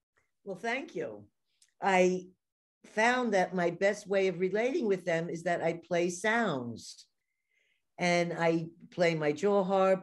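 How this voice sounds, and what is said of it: New York accent. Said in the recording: “I have a New York accent ... I hear the accent”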